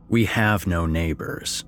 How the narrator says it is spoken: I grumbled

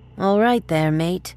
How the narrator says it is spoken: one female slurred

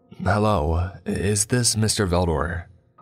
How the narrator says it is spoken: I asked

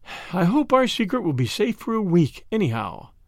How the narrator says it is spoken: said Madame, with a sigh and a smile

